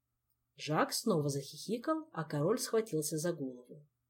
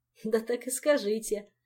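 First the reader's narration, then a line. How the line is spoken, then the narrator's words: Giggling. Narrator (Russian): Хихикнул Жак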